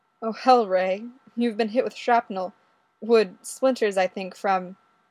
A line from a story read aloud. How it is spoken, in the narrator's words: says, still laughing